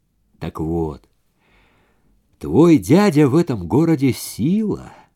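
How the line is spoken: Soft. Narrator (Russian): мягко сказал

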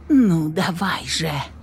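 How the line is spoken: Muttering. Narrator (Russian): пробормотала я

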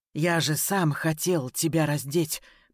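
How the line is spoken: Hoarse rasp. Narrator (Russian): прохрипел Ян

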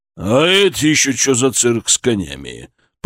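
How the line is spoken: Menacing growl. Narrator (Russian): прорычал он, и его голос не предвещал ничего хорошего

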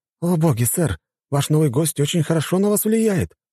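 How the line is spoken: Exclaimed. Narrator (Russian): воскликнул тот

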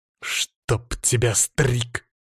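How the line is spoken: Growl. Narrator (Russian): прорычал я

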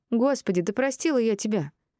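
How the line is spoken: Irritated snap. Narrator (Russian): раздраженно бросила она

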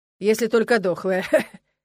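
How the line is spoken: Snide remark. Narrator (Russian): ехидно заметил Джулиан

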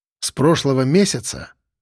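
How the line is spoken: Calm. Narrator (Russian): Проговорил я по-прежнему спокойно

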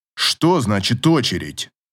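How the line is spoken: Sharp indignant. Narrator (Russian): Резко вскинулся Клим

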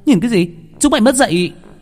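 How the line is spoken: Girl shouting. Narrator (Vietnamese): Cô gái la lên

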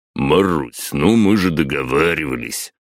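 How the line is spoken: Drawl. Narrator (Russian): протянул главарь

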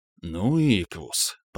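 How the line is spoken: Muttering. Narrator (Russian): пробормотал я

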